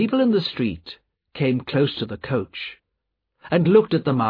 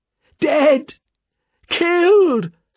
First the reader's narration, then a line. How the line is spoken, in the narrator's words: screamed the man